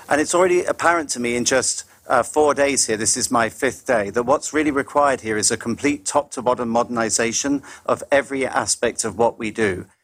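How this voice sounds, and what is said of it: British accent. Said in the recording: “British-born ... British accent”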